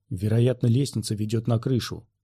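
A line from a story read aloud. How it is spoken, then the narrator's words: Whisper. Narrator (Russian): прошептал Квай-Гон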